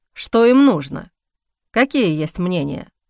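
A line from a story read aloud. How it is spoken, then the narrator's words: Plain. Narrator (Russian): спросил Эхран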